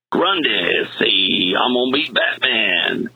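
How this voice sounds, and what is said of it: Solomon Grundy Creole voice impression. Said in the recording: “which I love the accent ... he had the awesome Creole accent”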